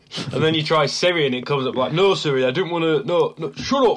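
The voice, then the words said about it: Northern English accent. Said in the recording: “your northern accent ... understand that northern accent.”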